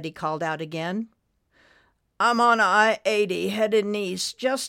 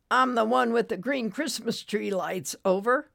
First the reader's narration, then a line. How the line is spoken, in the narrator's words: Floyd groaned